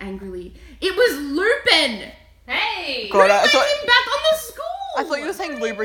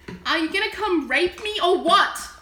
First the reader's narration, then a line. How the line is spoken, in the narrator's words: I yelled